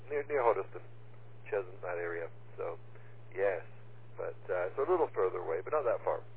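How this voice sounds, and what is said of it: Accent that doesn't sound English. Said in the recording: “with the accent, I wouldn't have given you English.”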